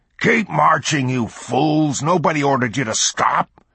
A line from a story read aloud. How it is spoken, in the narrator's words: Clardy roared